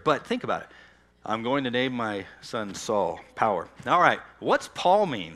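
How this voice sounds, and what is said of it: Deep, worn-out voice. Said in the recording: “How's that deep voice, by the way? ... my voice gives out so quick. So that's why it's already kind of deep there.”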